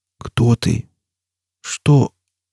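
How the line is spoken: Gasping, trembling voice. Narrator (Russian): Он судорожно вздохнул и выдавил дрожащим голосом

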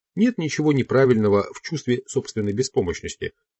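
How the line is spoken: Plain. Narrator (Russian): сказал Дон Хуан

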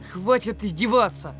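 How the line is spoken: Yell. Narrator (Russian): завопил Миша

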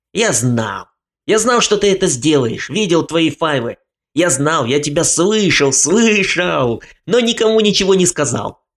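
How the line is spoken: Sudden, loud. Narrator (Russian): Вдруг он громко сказал

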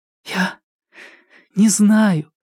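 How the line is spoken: Breathed into shoulder, muffled. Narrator (Russian): выдохнула Кира ему в плечо

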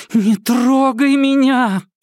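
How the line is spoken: Muffled moan. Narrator (Russian): простонала Кира сквозь его пьяные поцелуи

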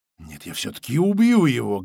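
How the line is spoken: Angry whisper. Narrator (Russian): гневным шепотом заявила Звистопула

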